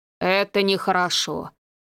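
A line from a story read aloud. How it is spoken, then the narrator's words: Deep bass voice. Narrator (Russian): пробасил священник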